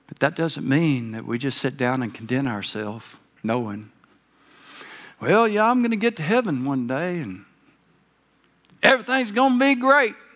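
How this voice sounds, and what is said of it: Southern American accent. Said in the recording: “Sorry for my southern accent. It sneaks out on me every now and then, whether I want it to or not.”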